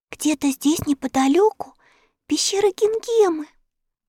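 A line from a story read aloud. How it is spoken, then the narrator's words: Whisper. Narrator (Russian): прошептала Энни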